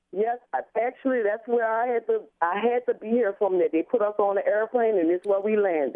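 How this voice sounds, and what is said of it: New Orleans accent. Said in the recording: “New Orleans accent going.”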